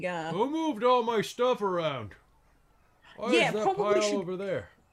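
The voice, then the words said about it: Canadian dad character voice. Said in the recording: “You sounded like my dad... That's what I'm channeling... Like literally every Canadian dad.”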